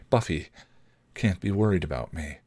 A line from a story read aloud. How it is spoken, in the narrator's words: she said softly